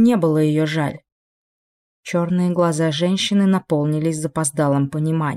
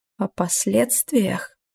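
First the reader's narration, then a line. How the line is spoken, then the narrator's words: Hoarse, choking question. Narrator (Russian): спросила она сиплым голосом, словно испытала приступ удушья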